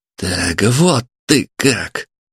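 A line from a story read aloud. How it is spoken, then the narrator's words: Strained. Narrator (Russian): выдавил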